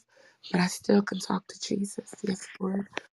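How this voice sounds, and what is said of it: Hoarse, nearly lost voice. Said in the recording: “I ain't got no voice left ... I might be whispering to him ... my voice is checking out”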